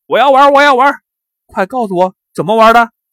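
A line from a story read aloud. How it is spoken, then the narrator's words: Loud eager clamoring. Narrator (Chinese): 王贵一听说是游戏，就大声嚷嚷起来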